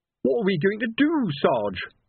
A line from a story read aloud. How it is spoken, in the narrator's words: wailed Colon